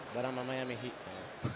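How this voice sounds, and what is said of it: Quiet, lowered voice. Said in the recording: “I'm going to say this quietly”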